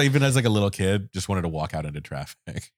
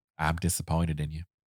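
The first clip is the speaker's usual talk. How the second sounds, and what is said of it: Slight Southern accent, older woman. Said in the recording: “that like slightly southern accent? ... She got a lot of Carolina.”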